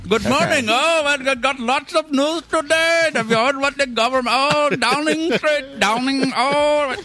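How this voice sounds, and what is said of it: Put-on Indian accent. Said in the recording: “You're going to be an Indian guy. ... I can do an Indian accent.”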